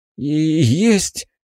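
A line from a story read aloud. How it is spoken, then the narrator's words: Hesitant mumble. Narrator (Russian): неуверенно промямлил он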